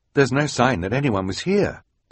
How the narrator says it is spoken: the scout said quickly

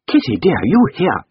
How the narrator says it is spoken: cried Mrs

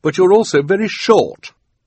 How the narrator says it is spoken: said nervously

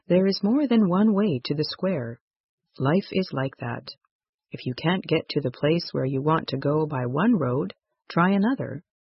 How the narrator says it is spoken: father said gently

